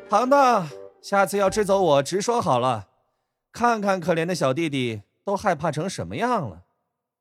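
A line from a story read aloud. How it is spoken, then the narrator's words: Loud. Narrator (Chinese): 大声说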